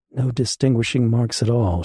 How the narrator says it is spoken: she said quietly

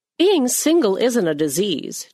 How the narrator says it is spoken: Julie snapped, against her better judgment

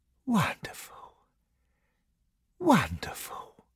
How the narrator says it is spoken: murmuring to himself

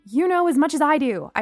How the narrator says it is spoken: I snapped

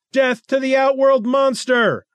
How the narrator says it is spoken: cried the crowd

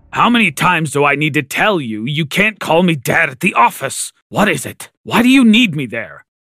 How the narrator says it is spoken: he grumbled

